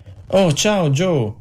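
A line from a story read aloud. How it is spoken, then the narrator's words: Exclaimed. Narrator (Italian): esclamò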